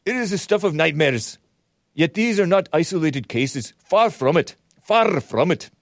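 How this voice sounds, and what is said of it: Bad impression of the first minister. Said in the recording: “it's a bad impression.”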